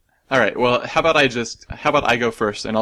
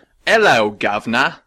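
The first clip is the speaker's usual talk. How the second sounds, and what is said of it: Put-on British accent. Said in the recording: “I'll just say all these phrases in a British accent.”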